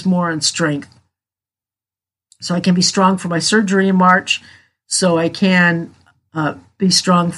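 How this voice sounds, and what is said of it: Hoarse, fading voice. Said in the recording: “my allergies are kicking my butt and I'm losing my voice somehow”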